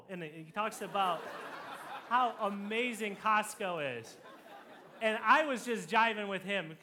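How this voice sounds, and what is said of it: Usual voice. Nothing is said of it.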